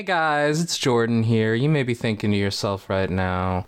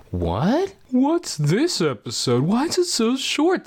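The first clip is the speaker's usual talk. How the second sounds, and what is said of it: Imitates another person's voice. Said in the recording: “That's my impression of you.”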